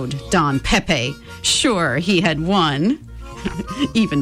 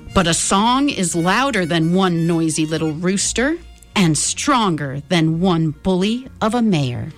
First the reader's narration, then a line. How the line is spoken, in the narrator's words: said the gallito